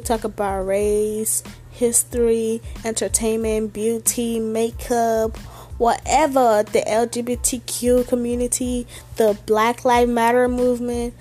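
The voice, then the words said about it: Speaks with a non-native accent. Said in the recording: “don't mind my accent, I have an accent”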